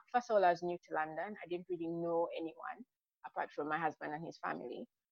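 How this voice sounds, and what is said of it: Foreign accent. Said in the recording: “very, very conscious about being foreign, having a, you know, what is considered a strange accent here. Of course, it's not strange when I'm back home.”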